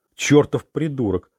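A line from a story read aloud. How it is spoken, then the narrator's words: Enraged growl. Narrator (Russian): зарычал он, его лицо побагровело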